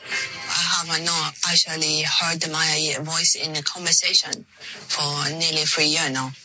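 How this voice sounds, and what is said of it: Chinese-sounding accent. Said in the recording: “she spoke with a Chinese accent”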